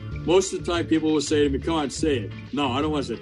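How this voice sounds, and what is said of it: New York accent. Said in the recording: “Oh, they love my accent.”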